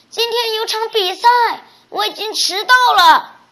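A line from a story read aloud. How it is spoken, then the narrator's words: Father shouting from behind. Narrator (Chinese): 爸爸在他身后大喊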